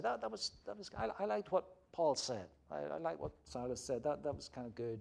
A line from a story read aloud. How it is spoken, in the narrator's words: quietly slip away and say